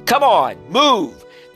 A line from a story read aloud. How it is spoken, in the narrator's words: the security guard yelled